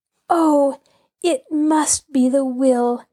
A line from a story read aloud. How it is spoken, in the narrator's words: Nancy cried